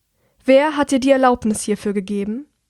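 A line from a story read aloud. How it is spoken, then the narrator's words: Loud but calm, controlled. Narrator (German): Obwohl sie sehr laut spricht, ist ihr Tonfall ruhig und beherrscht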